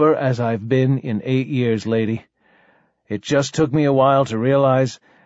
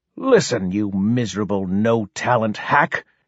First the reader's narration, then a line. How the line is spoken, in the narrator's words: she hissed